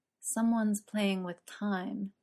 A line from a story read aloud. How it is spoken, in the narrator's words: whispered